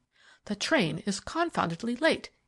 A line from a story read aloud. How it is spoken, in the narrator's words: he exclaimed irritably